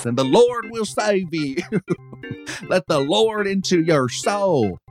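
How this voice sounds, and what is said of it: Country televangelist-style accent. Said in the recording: “My country accent kind of sounds like one of those televangelists”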